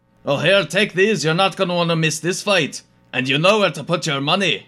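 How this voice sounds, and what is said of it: Character voice with overwhelming accent. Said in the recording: “The accent is a bit overwhelming... You have such a powerful voice”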